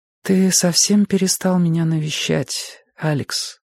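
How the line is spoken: Sad. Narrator (Russian): сказала она печально

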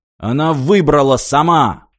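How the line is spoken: Bark. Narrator (Russian): рявкнул Мартин

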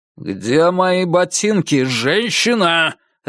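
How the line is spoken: Barked. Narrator (Russian): рявкнул я

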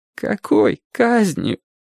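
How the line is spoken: Boy nearly sobbing. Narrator (Russian): почти рыдающим голосом спросил мальчик

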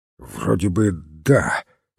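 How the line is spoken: Hoarse reply. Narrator (Russian): хрипло ответил сыщик

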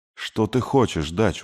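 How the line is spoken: Weary. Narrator (Russian): устало сказал Артур

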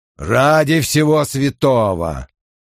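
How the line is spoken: Muttering. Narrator (Russian): пробормотал он

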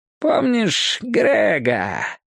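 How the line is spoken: Slightly sing-song question. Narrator (Russian): спросил он, немного нараспев

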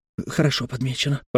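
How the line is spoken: Mutter. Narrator (Russian): пробормотал Нунис

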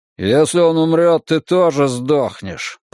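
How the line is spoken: Muttered. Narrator (Russian): пробурчал один из них

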